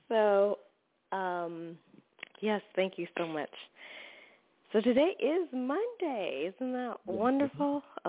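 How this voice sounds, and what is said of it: Slightly scratchy voice. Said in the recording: “My voice is a little scratchy, so excuse that. I've been talking all day.”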